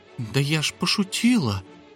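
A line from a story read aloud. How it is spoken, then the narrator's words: Quiet. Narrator (Russian): тихо промолвила Дымка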